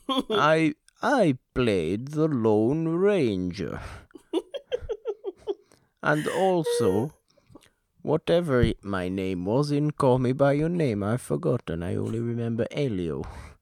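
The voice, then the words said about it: Put-on foreign accent, vaguely Italian. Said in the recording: “And now you're sounding kind of Italian. ... That was not Italian either. What the hell accent am I doing? I'm just going to go back to my regular accent.”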